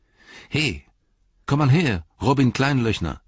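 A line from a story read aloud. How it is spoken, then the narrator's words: Calling out. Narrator (German): rief er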